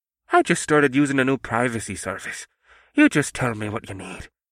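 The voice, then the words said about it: Thick Irish brogue character voice. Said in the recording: “McElfris replied in his thick brogue.”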